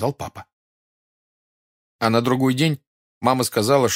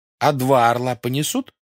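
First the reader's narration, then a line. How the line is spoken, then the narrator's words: Plain. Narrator (Russian): спросила Катя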